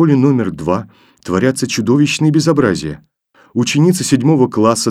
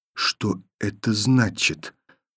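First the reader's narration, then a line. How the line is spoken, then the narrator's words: Quiet repetition. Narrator (Russian): повторила тихо Таня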